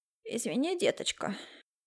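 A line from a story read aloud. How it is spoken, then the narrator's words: Heavy sigh, neighbor. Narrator (Russian): тяжело вздохнула соседка, с жалостью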